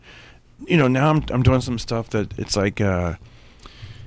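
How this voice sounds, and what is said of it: Usual voice. Nothing is said of it.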